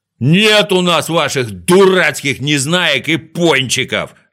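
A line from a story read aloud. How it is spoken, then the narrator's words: Shouting. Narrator (Russian): закричал Ригль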